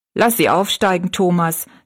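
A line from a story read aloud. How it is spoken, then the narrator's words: Plain. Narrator (German): sagte die Frau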